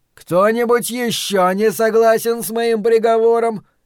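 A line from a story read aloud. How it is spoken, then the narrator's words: Booming voice. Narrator (Russian): прогремел Флэг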